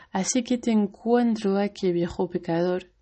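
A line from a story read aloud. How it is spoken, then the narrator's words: Plain. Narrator (Spanish): dijo él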